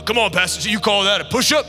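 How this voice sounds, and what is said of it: Deep voice, yelling. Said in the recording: “he's got this really deep voice ... So he starts yelling”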